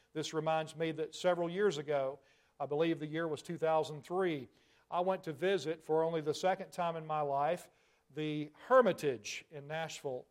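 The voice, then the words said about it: Tennessee Southern American accent. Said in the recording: “I'm a Tennessee boy. You can probably hear that in my accent.”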